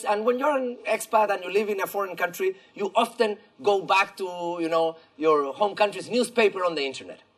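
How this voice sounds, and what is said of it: Chilean-accented English. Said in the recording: “as you probably hear from my funny accent that maybe you're not able to locate, I'm from Chile”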